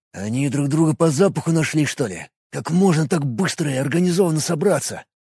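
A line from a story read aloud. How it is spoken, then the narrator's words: Whispered. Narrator (Russian): прошептал рядом один из бойцов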